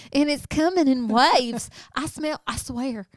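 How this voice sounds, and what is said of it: Imitates another person's accent. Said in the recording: “her accent”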